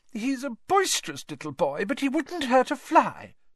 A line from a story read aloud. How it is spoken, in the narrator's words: said Aunt Petunia tearfully